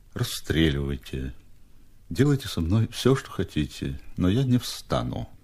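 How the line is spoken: Languid barely audible. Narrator (Russian): Степа ответил бы томным, чуть слышным голосом

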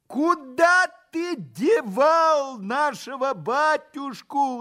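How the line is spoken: Furious crowd yelling. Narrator (Russian): завопило разозленное до неистовства сонмище

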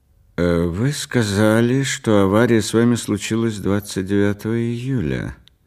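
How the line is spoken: Sympathetic policeman. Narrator (Russian): продолжал полицейский участливым тоном

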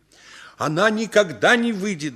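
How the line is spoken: Yelling. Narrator (Russian): заорал я

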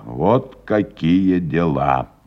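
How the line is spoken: Gloomy repetition. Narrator (Russian): мрачно повторил он еще раз

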